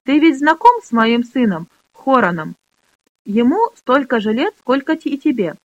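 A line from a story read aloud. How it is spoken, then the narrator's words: Plain question. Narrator (Russian): спросил Грош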